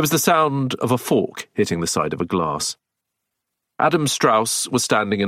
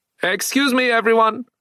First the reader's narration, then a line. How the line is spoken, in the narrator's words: he called out